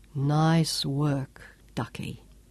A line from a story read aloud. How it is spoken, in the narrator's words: Sean said softly